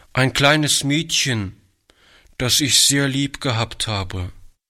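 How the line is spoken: Boy answering with deep sigh. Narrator (German): antwortete der Junge mit einem tiefen Seufzer

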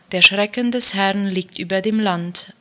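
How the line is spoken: Plain. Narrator (German): antwortete Salmon

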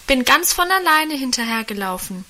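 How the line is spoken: Calling out. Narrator (German): rief da Guste

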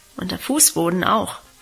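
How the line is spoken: Murmur. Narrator (German): murmelte sie

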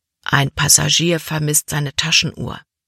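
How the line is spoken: Quiet voice. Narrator (German): sagte Kapitän Norstad Libby mit leiser Stimme

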